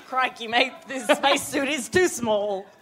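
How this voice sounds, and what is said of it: Attempted Australian accent, sounds German. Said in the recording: “That wasn't an Australian accent... a bit German.”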